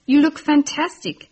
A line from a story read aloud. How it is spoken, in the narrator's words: she gasped